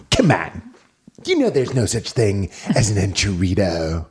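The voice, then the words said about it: Imitates another person's voice. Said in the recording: “That's my John Roy impression.”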